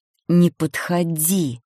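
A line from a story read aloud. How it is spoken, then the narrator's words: Angry, through teeth. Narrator (Russian): Зло процедив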